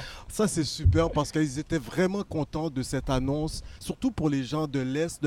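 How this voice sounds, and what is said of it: Usual voice. Nothing is said of it.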